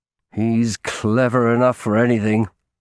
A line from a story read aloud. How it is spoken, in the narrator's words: I added bitterly